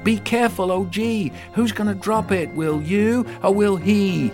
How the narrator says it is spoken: I shouted

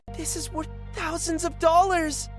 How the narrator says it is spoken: one of them exclaimed

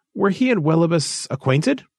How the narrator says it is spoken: Rolver laughed shortly

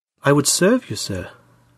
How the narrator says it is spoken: she said gently

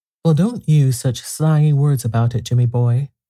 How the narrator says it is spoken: sighed Theodora

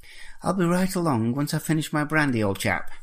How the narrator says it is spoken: Jeremy said brightly

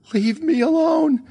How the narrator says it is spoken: she shrieked

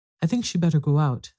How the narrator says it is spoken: said Bella Doll

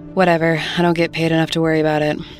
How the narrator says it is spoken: said, with a sigh

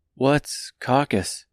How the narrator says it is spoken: asked Dorothy, hesitantly

